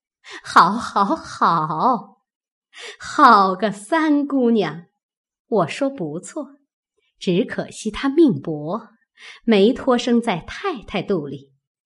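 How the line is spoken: Laughing. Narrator (Chinese): 凤姐儿笑道

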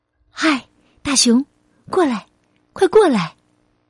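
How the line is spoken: Gentle call. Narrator (Chinese): 他温柔的叫道

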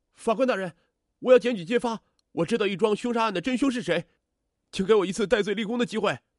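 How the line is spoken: Agitated shouting. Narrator (Chinese): 张德月突然变得焦躁不安起来，向法官高喊起来

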